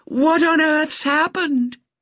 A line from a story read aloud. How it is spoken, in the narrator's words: Melissa's silvery voice called out hysterically